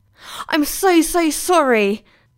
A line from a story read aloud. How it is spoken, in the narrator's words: Faris gasped, feeling absolutely dreadful